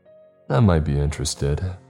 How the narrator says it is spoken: I said

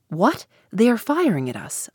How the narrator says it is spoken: I exclaimed

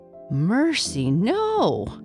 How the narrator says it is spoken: exclaimed the elephant

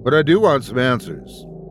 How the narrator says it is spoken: I stated firmly

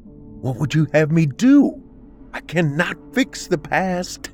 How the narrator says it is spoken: Rachel pleaded

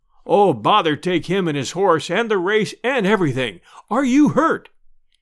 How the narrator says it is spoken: gasped the deacon

